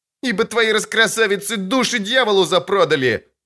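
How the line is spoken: Shout. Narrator (Russian): крикнул невысокий типчик

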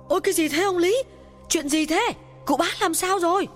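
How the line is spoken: Panicked question. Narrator (Vietnamese): Nghe Lý Hưng gào khóc, bà giáo ... hốt hoảng hỏi

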